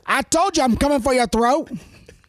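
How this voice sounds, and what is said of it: Poorly imitated accent. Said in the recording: “That wasn't a good accent ... a terrible one”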